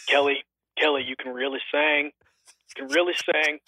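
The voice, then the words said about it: Deepened voice imitating another person. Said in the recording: “a really quick Garrett Hedlund impersonation ... I don't think I can make my voice deep enough”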